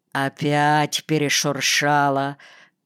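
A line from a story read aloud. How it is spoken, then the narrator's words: Grumbling. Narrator (Russian): ворчал Глазунов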